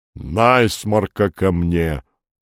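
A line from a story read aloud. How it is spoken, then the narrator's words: Muffled booming. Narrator (Russian): глухо прогудел Лавр Федотович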